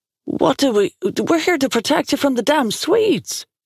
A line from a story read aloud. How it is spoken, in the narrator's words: Liam sputtered